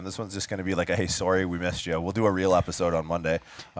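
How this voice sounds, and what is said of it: Canadian accent, noticeable vowels. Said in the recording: “Even the Canadian accent comes out with the sorries... notice the vowels?”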